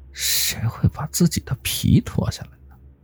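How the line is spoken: Thin murmur. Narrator (Chinese): 他用很细的声音喃喃的说道

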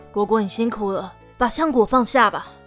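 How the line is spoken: Resigned sigh, magician. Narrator (Chinese): 魔法师无奈的叹口气 对果果说

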